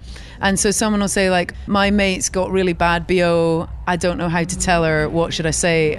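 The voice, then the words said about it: London accent. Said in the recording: “I also love your London accent.”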